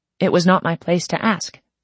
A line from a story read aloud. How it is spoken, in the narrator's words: John Yu said evenly